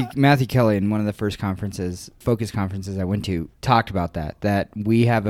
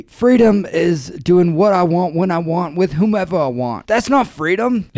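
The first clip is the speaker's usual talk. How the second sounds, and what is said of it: Matthew Kelly Australian accent impression. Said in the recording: “I'm going to try my best to do a Matthew Kelly Australian accent here ... It's a decent accent.”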